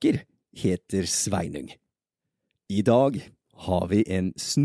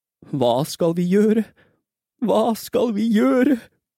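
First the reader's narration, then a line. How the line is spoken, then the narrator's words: Mother in utter despair. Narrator (Norwegian): sa moren helt fortvilet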